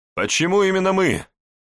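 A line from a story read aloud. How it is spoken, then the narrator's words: Shouting back from behind. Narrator (Russian): крикнул я ему в ответ из-за дивана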